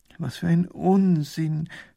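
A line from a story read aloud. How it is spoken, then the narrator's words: Groan. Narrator (German): stöhnt Professor Pfiffikus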